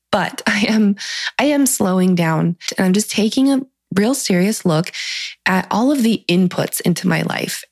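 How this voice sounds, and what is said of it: Slightly scratchy voice. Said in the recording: “my voice sounds a little bit scratchy”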